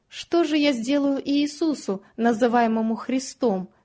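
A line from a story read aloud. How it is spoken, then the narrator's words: Plain. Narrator (Russian): спросил Пилат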